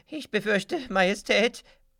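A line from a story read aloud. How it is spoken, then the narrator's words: Calling out. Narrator (German): ruft Glamboso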